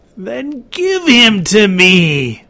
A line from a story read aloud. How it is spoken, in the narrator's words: whined the creature